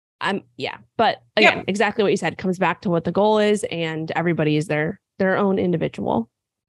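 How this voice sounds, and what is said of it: Raspy, sick-sounding voice. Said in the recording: “I am sick, if you can't tell. So my voice sounds horrible ... Everybody likes a little raspy voice.”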